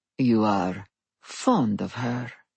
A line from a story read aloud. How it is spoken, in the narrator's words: he murmured